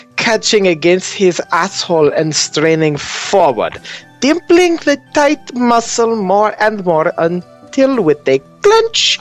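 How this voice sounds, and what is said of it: Put-on German-sounding accent. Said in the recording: “What the hell kind of accent is this? ... Is this some sort of German mistress slash doctor?”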